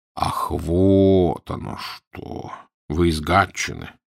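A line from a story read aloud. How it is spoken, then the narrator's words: Drawling. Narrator (Russian): протянул Фандорин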